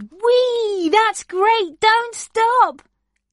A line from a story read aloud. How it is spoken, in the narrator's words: Frog cried